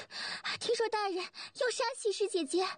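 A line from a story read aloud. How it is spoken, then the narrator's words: Breathless question. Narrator (Chinese): 他气喘吁吁地问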